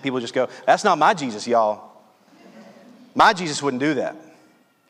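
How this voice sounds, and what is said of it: Put-on Southern US accent. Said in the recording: “I'm from Louisiana, so I just hear that with a southern accent.”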